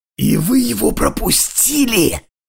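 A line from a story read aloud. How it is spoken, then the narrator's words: Snakelike hiss. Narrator (Russian): почти прошипела по-змеиному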